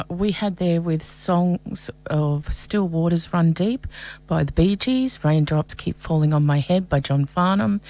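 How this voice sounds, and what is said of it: Voice sounding off, strained. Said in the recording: “my voice is sounding a little bit off ... my voice is going a little bit crazy ... if it's too weird”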